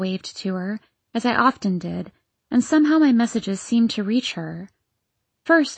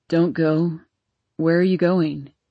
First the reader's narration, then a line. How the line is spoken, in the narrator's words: he sleepily asked